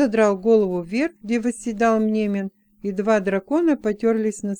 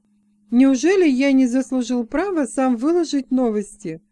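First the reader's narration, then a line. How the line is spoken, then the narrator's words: Mock-indignant exclamation. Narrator (Russian): с притворным возмущением воскликнул Джексон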